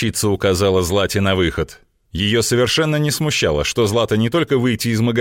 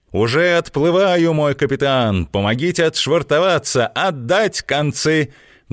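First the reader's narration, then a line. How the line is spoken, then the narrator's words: Loud playful command. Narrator (Russian): громко скомандовала Злата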